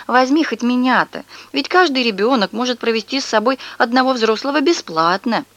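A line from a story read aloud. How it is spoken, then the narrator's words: Old woman pleading. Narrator (Russian): бабушка взмолилась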